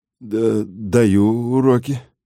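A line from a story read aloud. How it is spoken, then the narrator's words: Nervous stammering. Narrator (Russian): запинаясь от волнения, сказал Андрей Петрович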